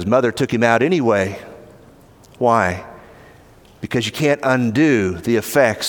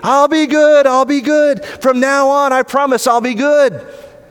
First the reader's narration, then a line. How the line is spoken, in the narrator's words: he was screaming